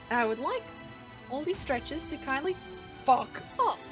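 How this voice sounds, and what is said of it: Switches into a different voice. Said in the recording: “I love that fuck was in a different voice.”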